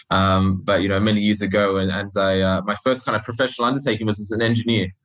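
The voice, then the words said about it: Australian accent. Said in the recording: “I started out life in Australia, if you can't tell from my funny accent.”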